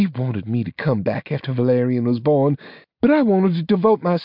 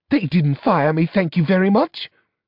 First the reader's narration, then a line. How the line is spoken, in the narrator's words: snapped Juliana